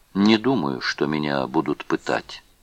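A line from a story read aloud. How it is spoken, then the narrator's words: Calm. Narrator (Russian): сказал он спокойно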